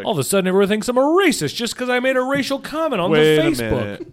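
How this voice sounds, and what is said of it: Imitates another person's voice. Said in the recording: “Good impression.”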